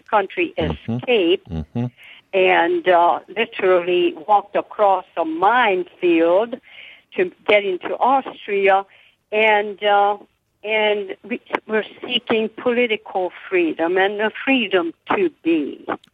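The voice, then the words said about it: Hungarian Southern US accent. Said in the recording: “your wonderful Hungarian Southern accent out of Charleston ... that Hungarian Carolinian accent”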